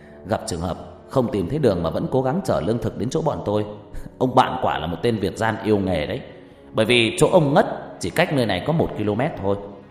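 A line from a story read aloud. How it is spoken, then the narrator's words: Laughing, cursing. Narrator (Vietnamese): Ngọc cười lớn rồi chửi đều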